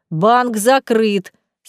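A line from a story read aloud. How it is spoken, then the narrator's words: Angry. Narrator (Russian): сердито останавливает он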